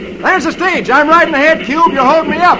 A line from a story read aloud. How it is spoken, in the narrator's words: Roy yells